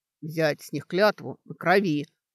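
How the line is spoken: Orc's booming drone. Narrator (Russian): прогудел орк

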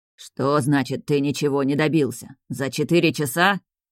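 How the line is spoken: Growling old voice. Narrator (Russian): рычал старческий голос

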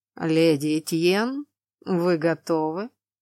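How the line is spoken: Man, cold and indifferent. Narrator (Russian): Самым безразличным и холодным тоном поинтересовался мужчина

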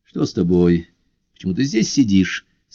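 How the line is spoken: Plain. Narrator (Russian): спросил он

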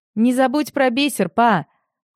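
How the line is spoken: Shouted after someone. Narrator (Russian): Вдогонку крикнул Крис

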